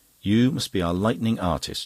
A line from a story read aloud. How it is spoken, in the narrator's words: she said